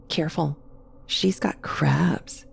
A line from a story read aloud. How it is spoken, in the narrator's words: she'd whisper